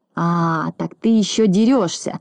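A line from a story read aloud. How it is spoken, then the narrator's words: Hoarse wheeze. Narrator (Russian): захрипел Знайка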